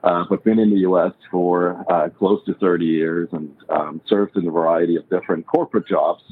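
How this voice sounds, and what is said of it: Swiss accent. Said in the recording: “I'm originally from Switzerland, born and raised, you probably can tell by my accent”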